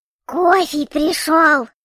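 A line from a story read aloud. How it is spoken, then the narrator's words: Joyful squeak. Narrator (Russian): Радостно пискнул Эльгран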